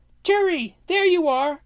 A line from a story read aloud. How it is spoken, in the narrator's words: squealed Snog